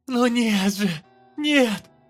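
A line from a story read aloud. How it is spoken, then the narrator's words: Shouting over noise. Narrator (Russian): закричала она, пытаясь заглушить клёкот, доносящийся из коридора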